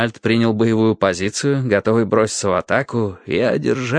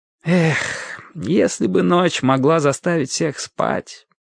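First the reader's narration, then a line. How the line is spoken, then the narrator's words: Sad sigh, knight. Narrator (Russian): грустно вздохнул рыцарь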